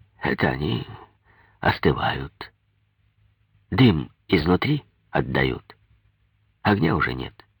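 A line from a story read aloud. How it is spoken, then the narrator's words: Calm answer. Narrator (Russian): ответил спокойно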